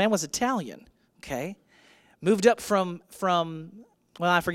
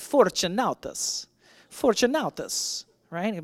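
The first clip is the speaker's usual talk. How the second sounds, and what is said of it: Put-on Italian accent. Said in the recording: “in your best Italian accent”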